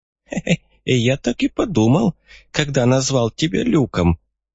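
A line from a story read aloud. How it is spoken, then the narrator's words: Frail old man's giggle. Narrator (Russian): хихикнул очень худой и дряхлый старик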